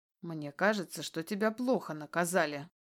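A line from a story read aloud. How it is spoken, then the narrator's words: Stern voice. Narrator (Russian): строгим голосом говорит мне бывший босс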